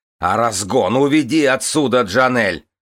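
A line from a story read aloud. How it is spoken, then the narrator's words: Yelled. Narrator (Russian): завопил Кирин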